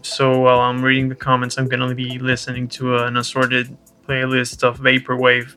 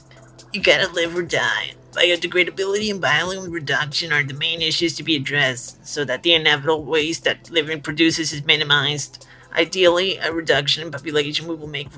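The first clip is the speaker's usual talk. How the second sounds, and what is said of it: Funny put-on reading voice. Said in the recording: “in a funny voice,”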